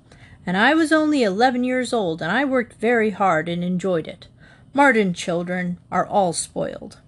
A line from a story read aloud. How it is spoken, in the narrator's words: stiffly